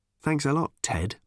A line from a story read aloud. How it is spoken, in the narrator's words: muttered Tricia